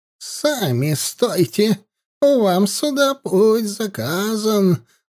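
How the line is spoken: Old witch's rattling voice. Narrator (Russian): дребезжащим голосом отозвалась колдунья

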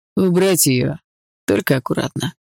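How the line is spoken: Dry command. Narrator (Russian): сухо велел Крет

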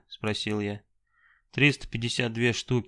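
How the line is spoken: Plain. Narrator (Russian): сказал молчаливый Саша

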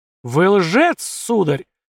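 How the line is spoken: Lisping shriek. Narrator (Russian): Шепелявив, взвизгнул рыжий

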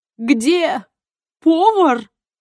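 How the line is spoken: Butler laughing. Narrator (Russian): рассмеялся дворецкий

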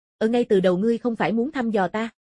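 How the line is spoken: Cold. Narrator (Vietnamese): Lãnh Vân Đình lạnh lùng nói

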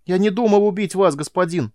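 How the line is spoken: Shouting. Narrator (Russian): закричал Дона

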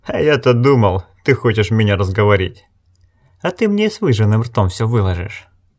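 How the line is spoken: Louder, distinct, with snort. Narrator (Russian): Пленник снова хмыкнул, громче, отчетливей, сказал

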